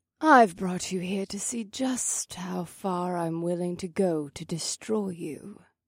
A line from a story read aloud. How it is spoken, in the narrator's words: she purred